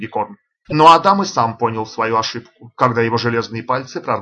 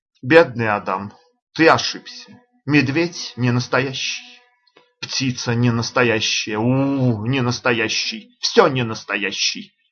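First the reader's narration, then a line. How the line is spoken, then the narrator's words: Confused muttering. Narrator (Russian): растерянно бормотал Адам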